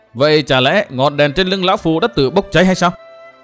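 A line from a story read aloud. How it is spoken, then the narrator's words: Angry. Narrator (Vietnamese): Huyết Đồ Nhân Ma tức giận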